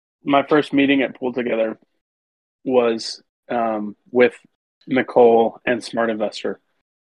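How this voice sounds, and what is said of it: Slow, sad-sounding speech. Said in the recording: “why are you talking so slow today? ... You sound really sad.”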